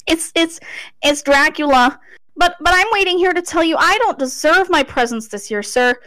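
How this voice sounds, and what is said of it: Shaky, frightened child's voice. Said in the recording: “in a shaky voice”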